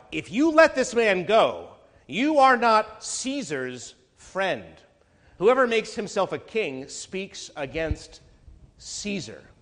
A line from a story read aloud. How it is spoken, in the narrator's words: the Jews cried out